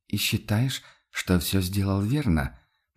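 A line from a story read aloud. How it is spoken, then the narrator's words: Quiet question. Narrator (Russian): по-прежнему тихо спросил Висконти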